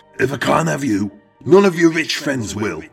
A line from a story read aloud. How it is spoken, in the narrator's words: They all heard Eric shout